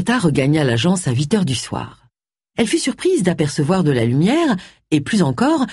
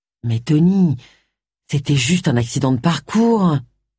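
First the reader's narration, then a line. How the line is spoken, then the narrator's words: Whining. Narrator (French): gémit Jake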